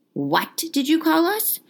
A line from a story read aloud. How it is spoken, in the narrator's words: shouted a wild-looking black centaur, whom Harry recognized as Bane